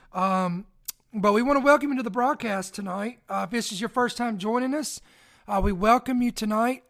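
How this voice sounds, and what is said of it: Hoarse, fading voice. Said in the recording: “excuse my voice. I'm kind of losing it ... because ragweed here in Indiana, Kentucky is very bad right now ... these are allergies ... bear with me on my voice”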